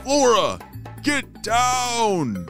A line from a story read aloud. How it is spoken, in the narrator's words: Ramesses called out